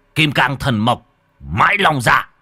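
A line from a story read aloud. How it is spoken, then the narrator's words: Shouted. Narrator (Vietnamese): Nhà Tam nhà Tứ quát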